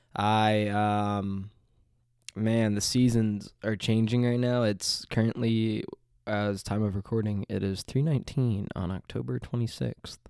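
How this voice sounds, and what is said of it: Nasal, congested voice. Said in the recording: “I sound a little nasally ... this is messing with my allergies for sure. A lot of mucus”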